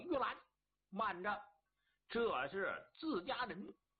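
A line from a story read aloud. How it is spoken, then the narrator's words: Loud shout. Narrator (Chinese): 焦雄高声喊喝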